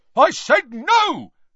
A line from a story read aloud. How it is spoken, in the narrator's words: shouted the brutal-faced man